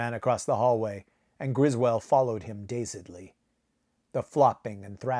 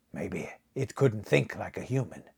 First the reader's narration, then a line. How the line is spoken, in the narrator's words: he muttered